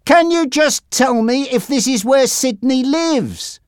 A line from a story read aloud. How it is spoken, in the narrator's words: Jack shouted